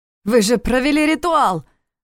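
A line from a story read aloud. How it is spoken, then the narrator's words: Shouted. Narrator (Russian): выкрикнул он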